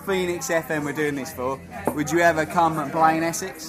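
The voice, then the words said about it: Essex accent with a twang. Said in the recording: “as you can hear from the common twang, I'm from Essex.”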